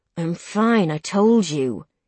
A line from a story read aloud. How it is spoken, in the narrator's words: he growls, a little angry with me now